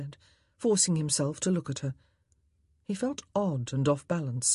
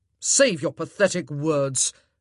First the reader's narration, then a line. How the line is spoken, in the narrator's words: Antony spat